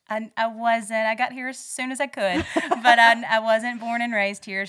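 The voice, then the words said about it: Southern US accent. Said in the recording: “this great Southern accent”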